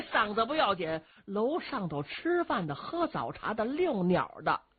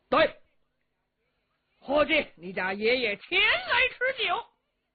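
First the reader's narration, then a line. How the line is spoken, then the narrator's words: Shouted call. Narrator (Chinese): 秦琼 喊喝一声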